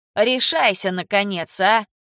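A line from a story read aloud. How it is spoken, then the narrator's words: Grumbling. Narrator (Russian): проворчал Карл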